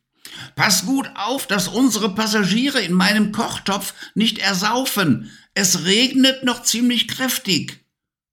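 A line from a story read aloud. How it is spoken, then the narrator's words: Calling out. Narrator (German): die Hexe rief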